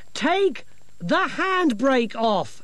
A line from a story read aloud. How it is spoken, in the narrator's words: shouted